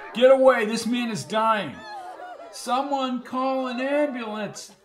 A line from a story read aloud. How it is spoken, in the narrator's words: yelled the Reverend